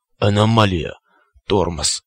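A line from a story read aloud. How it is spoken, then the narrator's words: Strained hoarse rasp. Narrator (Russian): прохрипел циклоп, с усилием ворочая нижней челюстью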